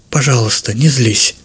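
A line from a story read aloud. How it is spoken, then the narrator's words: Whisper. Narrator (Russian): прошептала она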